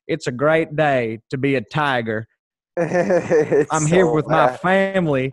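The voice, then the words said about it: Bad put-on Southern accent. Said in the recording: “that's a really bad Southern accent, but that's pretty much what he sounded like”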